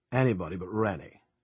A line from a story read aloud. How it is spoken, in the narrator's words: Ernie growled